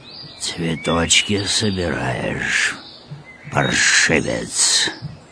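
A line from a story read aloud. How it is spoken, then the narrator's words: Hoarse wheeze. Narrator (Russian): прохрипел мудрейший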